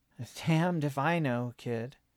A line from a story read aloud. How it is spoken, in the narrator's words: she said, sighing